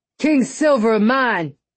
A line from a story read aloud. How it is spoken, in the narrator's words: he shouted